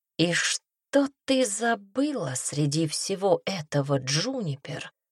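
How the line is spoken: Whispered to himself. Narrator (Russian): прошептал он сам себе

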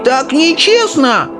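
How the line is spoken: Shrieking old woman. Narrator (Russian): завизжала бабушка Джозефина

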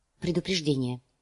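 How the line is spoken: Quiet reply. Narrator (Russian): негромко ответила

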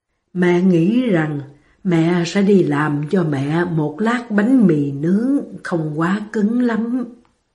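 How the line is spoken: Whisper. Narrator (Vietnamese): Bà thì thầm

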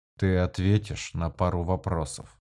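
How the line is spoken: Quiet but clear. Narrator (Russian): тихо, но внятно произнес Корриган

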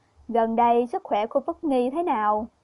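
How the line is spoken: Smiling. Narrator (Vietnamese): Thái hậu mỉm cười nói

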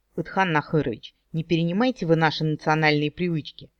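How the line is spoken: Snorting. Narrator (Russian): я фыркнула

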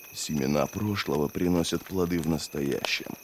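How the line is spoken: Muttered to himself. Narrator (Russian): пробормотал про себя Логин

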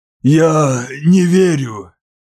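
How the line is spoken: Wheezing. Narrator (Russian): просипел Тетис

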